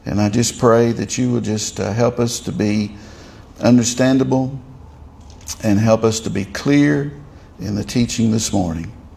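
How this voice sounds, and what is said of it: Southern Tennessee American accent. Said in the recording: “a southern Tennessee accent”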